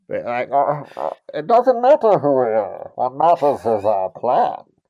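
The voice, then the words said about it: Muffled, hard-to-understand dubbed villain voice. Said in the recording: “I'm doing my imitation of the dub on this movie... Am I difficult to understand?... Is it hard to understand what I'm saying here?... You kind of sounded like Bane a little bit”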